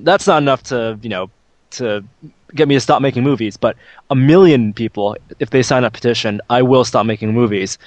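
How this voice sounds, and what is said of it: Put-on German accent. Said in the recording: “in his German accent.”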